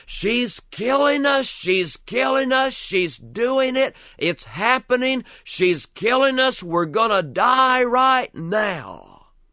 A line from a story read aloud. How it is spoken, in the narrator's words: my brother Joe started kicking and screaming